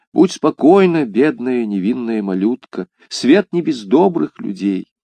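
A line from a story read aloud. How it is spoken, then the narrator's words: Whispering. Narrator (Russian): прошептал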